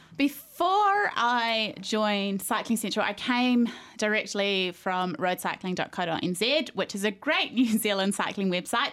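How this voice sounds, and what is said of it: New Zealand accent. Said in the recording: “you were coming from NZ ... the accent is obviously very difficult giveaway”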